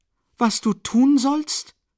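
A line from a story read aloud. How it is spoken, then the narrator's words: Called out. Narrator (German): rief sie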